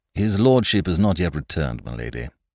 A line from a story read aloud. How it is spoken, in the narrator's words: said Mr